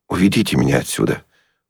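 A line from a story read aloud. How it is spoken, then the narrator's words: Whisper. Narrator (Russian): Настенькин шепот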